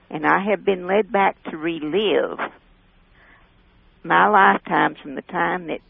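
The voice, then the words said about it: Speaks with a distinctive accent. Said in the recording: “I'm just listening to that accent ... It's more the way you're saying it.”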